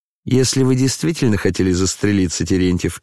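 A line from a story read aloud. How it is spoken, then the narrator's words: Laughing. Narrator (Russian): засмеялся Евгений Павлович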